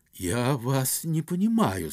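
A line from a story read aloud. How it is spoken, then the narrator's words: Dejected voice. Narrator (Russian): сказал он упавшим голосом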